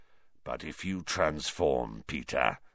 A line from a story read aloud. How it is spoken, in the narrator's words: growled Black